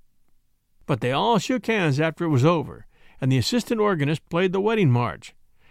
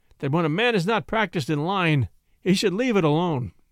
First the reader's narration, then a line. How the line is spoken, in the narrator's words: he added mournfully